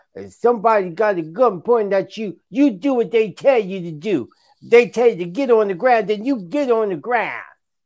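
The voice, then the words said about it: Poor imitation of another person's voice. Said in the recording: “that was a bad impression of Stephen.”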